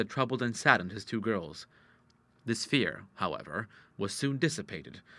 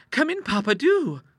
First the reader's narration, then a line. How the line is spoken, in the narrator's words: cried Ida